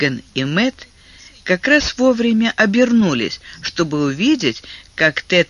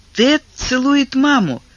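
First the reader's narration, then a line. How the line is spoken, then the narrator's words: Exclamation. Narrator (Russian): воскликнула Миган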